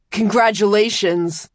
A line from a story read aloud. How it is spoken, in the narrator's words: grunted around the smashed half of his jaw, with a mocking pride